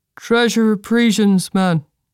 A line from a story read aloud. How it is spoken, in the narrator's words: he answered in a flat tone